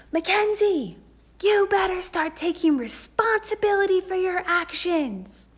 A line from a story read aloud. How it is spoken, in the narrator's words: male cop got up in my face and yelled